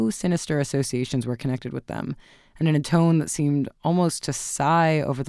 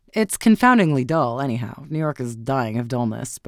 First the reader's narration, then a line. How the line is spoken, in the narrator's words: Beaufort grumbled